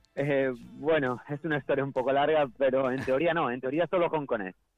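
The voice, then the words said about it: Galician Spanish accent. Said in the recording (Spanish): “con acento gallego. Caray, qué buen acento ... el acento te delata”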